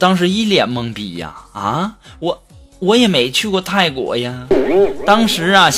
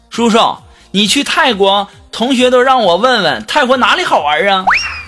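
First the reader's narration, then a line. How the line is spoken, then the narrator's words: Child shouting. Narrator (Chinese): 一个初中模样的孩子冲我喊说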